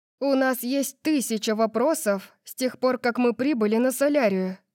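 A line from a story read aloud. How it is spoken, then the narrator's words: Accusing tone. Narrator (Russian): сказала я обвиняющим тоном, потому что он знал, что мы ничего не знаем об этом мире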